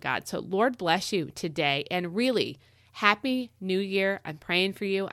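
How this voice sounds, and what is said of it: Sick, strained-sounding voice. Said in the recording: “I am under the weather, and I think you can hear it in my voice ... I sound a little bit more intense when my voice gets weird when I'm sick like this”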